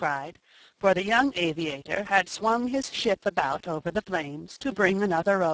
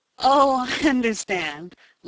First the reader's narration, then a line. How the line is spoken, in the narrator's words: laughed Ned